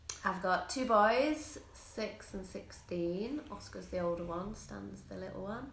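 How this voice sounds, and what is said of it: English accent. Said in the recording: “I don't know if you can tell by my accent, but I am from England”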